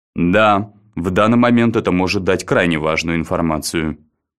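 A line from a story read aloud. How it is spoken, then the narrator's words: Serious tone. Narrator (Russian): серьезным тоном произнес Баррис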